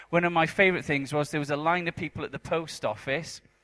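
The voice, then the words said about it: Welsh accent. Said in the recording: “are you guys understanding my accent, or is it really difficult? Eventually, your brain will like reconfigure to Welsh somehow.”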